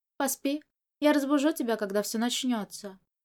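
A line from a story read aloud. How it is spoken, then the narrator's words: Calm. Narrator (Russian): Мо Жань спокойно сказал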